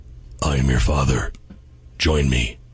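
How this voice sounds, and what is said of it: Darth Vader impression. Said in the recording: “So ... does Darth Vader.”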